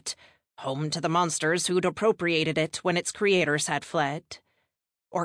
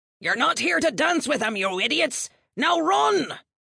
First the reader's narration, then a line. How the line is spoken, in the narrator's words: roared an older man